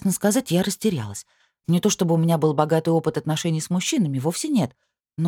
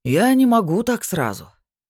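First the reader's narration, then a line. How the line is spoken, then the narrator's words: Theatrical sigh. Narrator (Russian): театрально вздохнул этот гад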